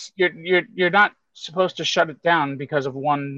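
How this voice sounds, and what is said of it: Usual voice. Nothing is said of it.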